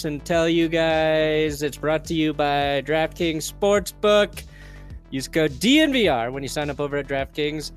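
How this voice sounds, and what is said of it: Deliberately annoying put-on voice. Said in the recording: “in a really annoying voice”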